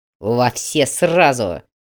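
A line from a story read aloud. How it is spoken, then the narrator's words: Fierce bark. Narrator (Russian): рявкнул так, что командир передовой группы прикусил язык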